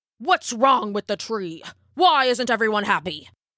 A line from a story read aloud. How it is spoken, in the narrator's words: snapped the elder